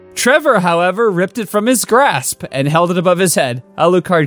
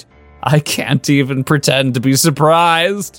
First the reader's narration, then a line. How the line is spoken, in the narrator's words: he chuckled